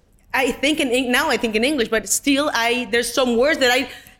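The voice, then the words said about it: Spanish accent in English. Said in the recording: “nobody would want to listen to my accent ... accent reduction coaches ... They like my accent ... This is my accent, and I'm proud of it”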